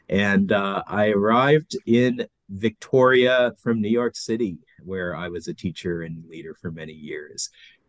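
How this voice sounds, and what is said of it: American accent, Los Angeles. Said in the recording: “I was born in Vietnam, raised in Los Angeles. So that's where my accent comes from.”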